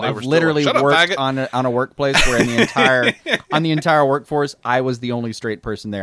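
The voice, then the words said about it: Southern American accent. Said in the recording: “our Southern accents”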